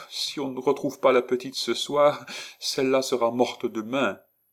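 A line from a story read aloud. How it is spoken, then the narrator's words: Sobbing. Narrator (French): Médor dit avec un sanglot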